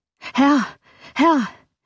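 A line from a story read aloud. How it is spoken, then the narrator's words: Frightened call. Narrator (German): rief ein Diener mit einem noch bleicheren Gesicht und mit noch erschrockenerer Miene als zuvor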